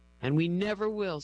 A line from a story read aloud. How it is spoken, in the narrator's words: says Rick, his voice choked with emotion